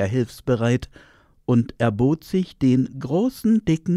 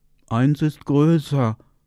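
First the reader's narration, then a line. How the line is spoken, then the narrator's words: Little bears grumbling. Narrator (German): brummten die Bärchen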